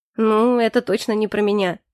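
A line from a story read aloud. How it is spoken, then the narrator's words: Wry snort. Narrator (Russian): хмыкнул Заэль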